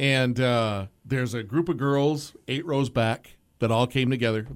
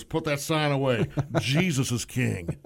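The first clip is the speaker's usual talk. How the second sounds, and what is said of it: Imitates another person's voice. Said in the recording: “good Elvis imitation right there. It's solid.”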